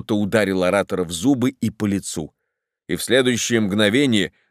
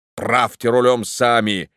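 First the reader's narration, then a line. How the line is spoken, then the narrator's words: Thundering curse. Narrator (Russian): с проклятием прогремел он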